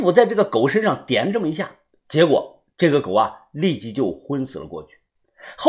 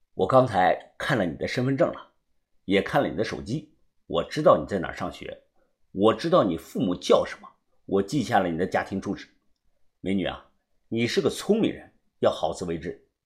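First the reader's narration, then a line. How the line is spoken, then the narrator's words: Soft. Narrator (Chinese): 轻声的说道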